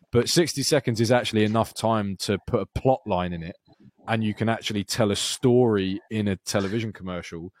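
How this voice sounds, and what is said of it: Own accent that can sound sarcastic. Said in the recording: “this is going to sound sarcastic because of my accent”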